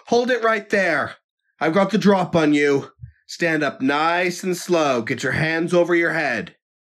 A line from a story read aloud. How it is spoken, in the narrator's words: John called out